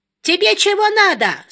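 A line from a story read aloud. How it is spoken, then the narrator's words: Shrill question. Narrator (Russian): спросила она визгливым тоном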